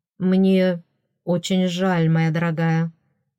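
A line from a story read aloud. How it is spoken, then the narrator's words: Muffled, then very soft. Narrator (Russian): глухо сказал он и продолжил как можно мягче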